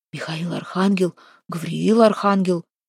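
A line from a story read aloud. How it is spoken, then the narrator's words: Muttering. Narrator (Russian): бормотал Харапун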